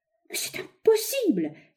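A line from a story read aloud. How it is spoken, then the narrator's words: Young man exclaiming. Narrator (French): s'écria un jeune milliardaire, l'ingénieur Harry Dorgan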